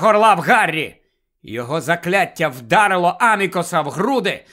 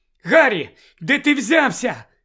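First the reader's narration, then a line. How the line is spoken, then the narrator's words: Shouted. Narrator (Ukrainian): крикнула Джинні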